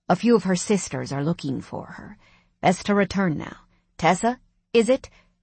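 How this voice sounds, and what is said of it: Irish accent. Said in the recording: “The redhead spoke, surprising me with an Irish accent.”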